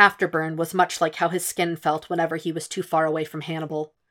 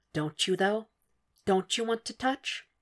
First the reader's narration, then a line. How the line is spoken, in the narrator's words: A wicked, dark part of his mind whispered